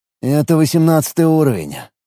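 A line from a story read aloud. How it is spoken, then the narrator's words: Gloomy. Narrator (Russian): мрачно произнес Алекс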